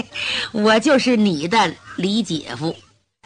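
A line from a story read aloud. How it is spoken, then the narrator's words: Hearty laugh. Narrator (Chinese): 李明哈哈一笑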